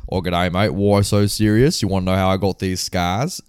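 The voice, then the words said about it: Put-on Australian accent. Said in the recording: “oh, it would be amazing if the Joker was Australian. Could you imagine from that movie”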